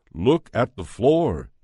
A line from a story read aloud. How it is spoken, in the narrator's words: he said